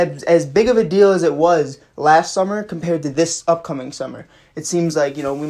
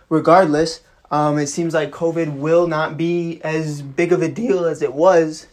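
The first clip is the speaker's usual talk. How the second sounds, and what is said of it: Voice cracks mid-sentence. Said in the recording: “my voice cracked.”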